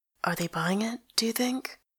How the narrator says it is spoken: whispers

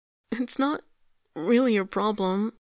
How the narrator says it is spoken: he stammers, in that hiccupy, almost crying voice

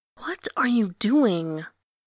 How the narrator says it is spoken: Someone hisses behind him

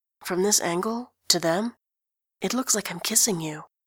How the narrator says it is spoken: Grantaire whispers

